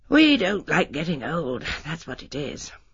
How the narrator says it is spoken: said Haydock gently

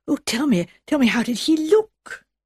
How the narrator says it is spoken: ask breathlessly

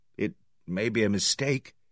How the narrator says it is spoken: I suggested feebly

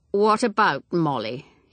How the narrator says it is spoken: He said stiffly

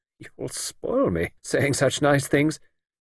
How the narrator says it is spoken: Ruth said, laughing to hide her pleasure and embarrassment

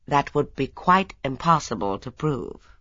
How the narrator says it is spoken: added firmly

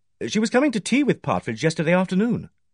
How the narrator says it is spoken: I said quickly

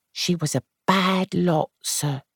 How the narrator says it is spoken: she said quietly

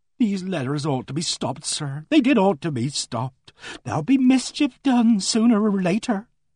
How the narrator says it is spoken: She said wistfully and earnestly

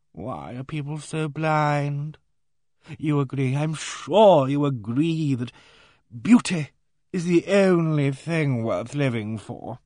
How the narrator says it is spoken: He shuddered, and murmured plaintively

